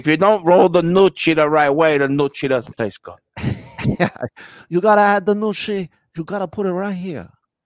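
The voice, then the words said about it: Put-on Italian accent. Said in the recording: “I'm Italian. And so I can do that accent.”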